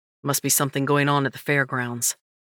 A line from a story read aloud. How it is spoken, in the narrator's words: Dustin muttered